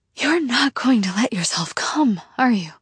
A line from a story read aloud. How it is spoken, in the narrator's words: I breathe out, words tangled between gasps